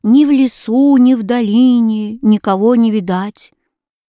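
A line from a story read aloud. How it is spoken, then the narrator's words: Sad. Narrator (Russian): Карло печально отвечал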